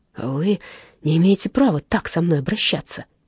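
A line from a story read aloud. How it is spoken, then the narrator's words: Angry hiss. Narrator (Russian): прошипел он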